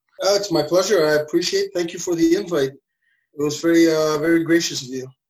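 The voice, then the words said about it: New York-like accent. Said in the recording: “your accent reminds me of being home in New York ... we consider that a hick accent over here”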